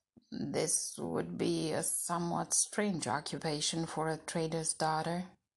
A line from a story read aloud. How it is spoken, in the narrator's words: her father answered in a dry voice